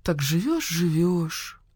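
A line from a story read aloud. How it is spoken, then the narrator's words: Thoughtful. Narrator (Russian): задумчиво произнесла Нина Павловна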